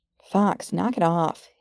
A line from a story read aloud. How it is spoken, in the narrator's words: grumbled